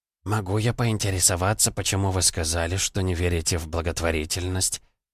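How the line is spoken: Quiet but firm question. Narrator (Russian): спросил тихо, но твердо

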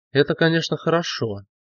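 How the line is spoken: Sigh. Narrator (Russian): генерал вздохнул

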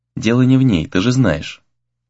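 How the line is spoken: Quiet reply. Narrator (Russian): Тихо откликнулся Сагюнара

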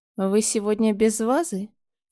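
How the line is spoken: Lazy question. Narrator (Russian): лениво поинтересовался Коршун

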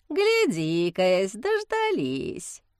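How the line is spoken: Snide drawl. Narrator (Russian): ехидно протянул Герасим

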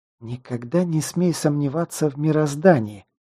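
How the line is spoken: Angry hiss. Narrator (Russian): злобно прошипела

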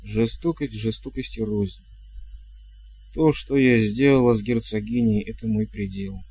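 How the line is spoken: Plain. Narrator (Russian): сказала матушка

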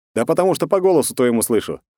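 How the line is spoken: Wry snort. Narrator (Russian): хмыкнул

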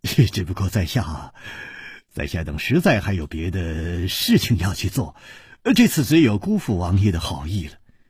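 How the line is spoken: Sighing, wry. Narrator (Chinese): 楚留香只有叹了一口气，苦笑着说

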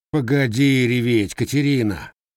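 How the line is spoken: Sighing blacksmith. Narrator (Russian): вздохнул кузнец

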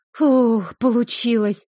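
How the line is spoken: Relieved exhale. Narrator (Russian): Выдохнула с облегчением

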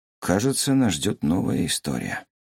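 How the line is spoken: Muttered. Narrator (Russian): пробормотал Чигён

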